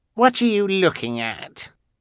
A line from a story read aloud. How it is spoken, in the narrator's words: Carmelita asked scornfully